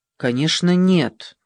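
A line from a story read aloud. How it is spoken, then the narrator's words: Offended. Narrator (Russian): ответила Ева оскорбленным тоном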